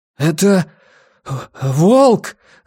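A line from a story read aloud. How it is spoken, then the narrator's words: Breathless, strained. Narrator (Russian): задыхаясь, выдавил из себя он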